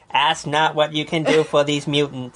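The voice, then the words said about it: Imitates another person's voice and accent. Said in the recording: “That's so terrible. ... My accent, my impression ... All of it. It's just all awful.”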